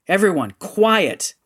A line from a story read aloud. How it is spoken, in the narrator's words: Rendra yelled